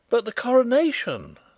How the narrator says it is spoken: I cried in horror

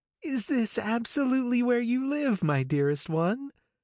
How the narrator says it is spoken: The exhilarating ripple of her voice

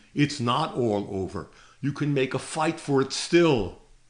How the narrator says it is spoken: said angrily

